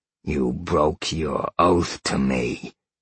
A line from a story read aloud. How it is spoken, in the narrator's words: Sal growled